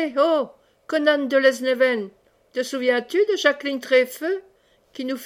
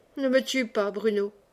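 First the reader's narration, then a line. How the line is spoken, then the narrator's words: Murmured. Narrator (French): murmura Conan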